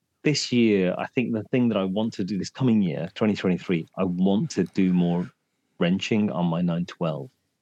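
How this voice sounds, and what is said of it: Croaky voice. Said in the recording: “my voice is really croaky”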